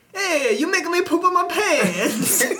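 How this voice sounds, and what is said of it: Imitated Italian man's voice. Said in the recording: “my impression of a Italian guy who you just scared”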